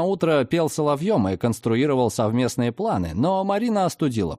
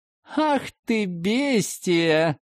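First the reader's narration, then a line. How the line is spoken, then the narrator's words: Laughing. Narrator (Russian): рассмеялась Люба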